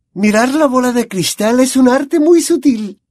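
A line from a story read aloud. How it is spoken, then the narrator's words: Dreamy explanation. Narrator (Spanish): explicó en tono soñador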